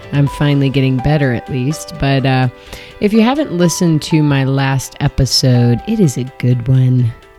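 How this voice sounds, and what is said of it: Slightly hazy, hoarse voice. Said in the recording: “you can hear my voice is still a little hazy”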